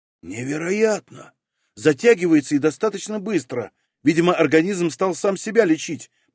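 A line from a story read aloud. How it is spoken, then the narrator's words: Muttered. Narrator (Russian): пробормотал он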